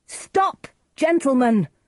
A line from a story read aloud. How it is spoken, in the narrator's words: Romeo cried